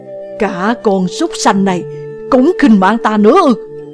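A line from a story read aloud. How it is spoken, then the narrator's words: Angry roar. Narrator (Vietnamese): Địch Vân tức giận gầm lên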